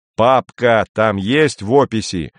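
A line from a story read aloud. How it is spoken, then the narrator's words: Loud bark. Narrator (Russian): гаркнул Андрей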